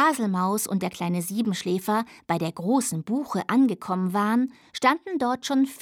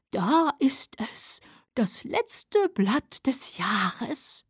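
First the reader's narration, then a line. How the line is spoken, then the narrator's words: Owl whispering. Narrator (German): flüsterte die Eule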